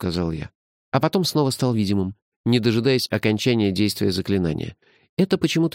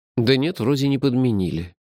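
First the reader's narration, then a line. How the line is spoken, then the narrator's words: Sighed. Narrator (Russian): вздохнул я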